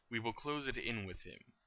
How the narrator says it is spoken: Voldemort replied

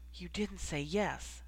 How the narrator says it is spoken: whispered

